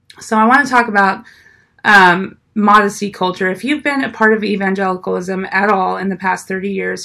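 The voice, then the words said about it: Hoarse, fading sick voice. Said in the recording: “I'm a little bit sick, so I'm losing my voice a little bit”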